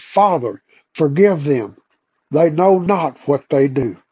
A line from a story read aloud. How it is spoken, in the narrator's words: in the midst of the flame, he cried